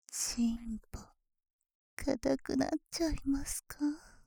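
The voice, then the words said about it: Whispering close to the ear. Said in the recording (Japanese): “耳元で囁かれるだけで”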